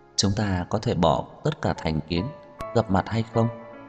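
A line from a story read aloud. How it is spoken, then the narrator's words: Soft gentle voice. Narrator (Vietnamese): Giọng nói của Như Mạt giống như bông tuyết trên bầu trời, nhẹ nhàng lộ ra một chút mềm mại và dịu dàng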